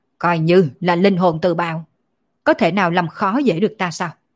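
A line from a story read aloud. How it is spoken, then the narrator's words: Loud roar, coughing blood. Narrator (Vietnamese): Thánh quân quát to một tiếng, phun ra một ngụm máu tươi, quát lên nói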